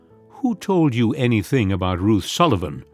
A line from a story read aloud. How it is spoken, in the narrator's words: said sharply